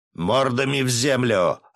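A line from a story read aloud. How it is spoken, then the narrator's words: Barked command. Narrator (Russian): рявкнул я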